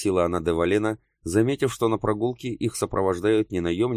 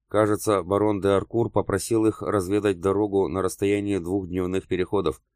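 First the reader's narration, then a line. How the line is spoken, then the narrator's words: Plain. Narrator (Russian): ответил граф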